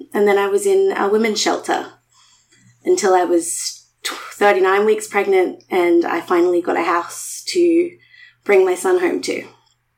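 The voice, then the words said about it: Emotional, tearful voice. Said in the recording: “I'm a little emotional there.”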